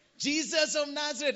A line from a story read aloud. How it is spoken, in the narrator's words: shouted